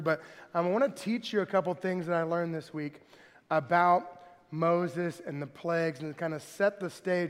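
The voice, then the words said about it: Slightly hoarse, weakened voice. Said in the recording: “My voice is a little gone from allergies”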